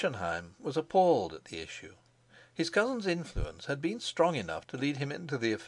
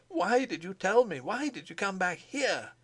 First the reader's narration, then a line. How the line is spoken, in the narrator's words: cried